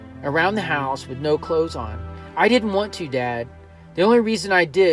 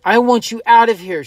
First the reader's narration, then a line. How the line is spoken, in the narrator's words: she cried